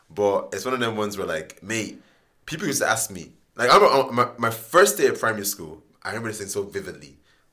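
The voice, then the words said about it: Mixed Nigerian, Irish and London accent. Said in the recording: “I embrace this accent I have right now, this Nigerian, Irish, London accent”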